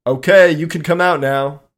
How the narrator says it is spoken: Anthony shouted to Melissa

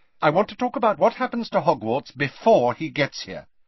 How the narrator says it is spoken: she said quickly

